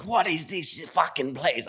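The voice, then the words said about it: Gordon Ramsay impression, New Zealand accent. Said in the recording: “Gordon Ramsay ... I always like do like a New Zealander accent.”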